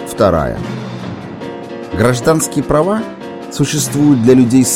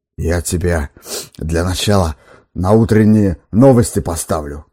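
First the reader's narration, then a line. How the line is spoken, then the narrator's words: Hoarse wheezing. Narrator (Russian): хрипел редактор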